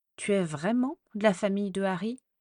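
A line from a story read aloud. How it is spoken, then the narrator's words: Plain question. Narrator (French): me demanda-t-elle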